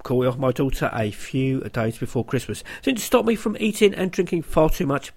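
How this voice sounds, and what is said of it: Congested voice from a cold. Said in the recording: “as you can probably tell, well, I have a cold.”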